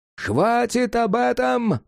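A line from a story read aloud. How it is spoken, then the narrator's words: Shouting cat. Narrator (Russian): заорал кот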